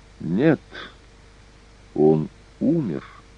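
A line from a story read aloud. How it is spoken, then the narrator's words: Calm, young woman. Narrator (Russian): спокойно произнесла девушка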